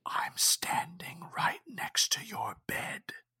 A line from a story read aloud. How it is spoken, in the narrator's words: it whispered